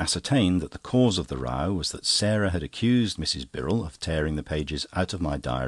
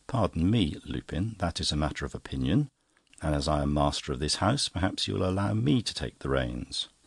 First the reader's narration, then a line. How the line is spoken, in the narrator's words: I said, quietly